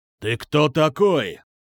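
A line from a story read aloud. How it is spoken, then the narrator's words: Menacing growl. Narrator (Russian): Грозно рыкнул он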